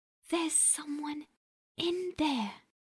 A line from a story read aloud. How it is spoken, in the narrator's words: whispered